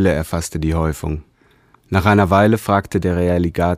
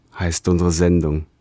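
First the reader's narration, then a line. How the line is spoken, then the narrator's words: Sighing. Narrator (German): seufzte der Realligator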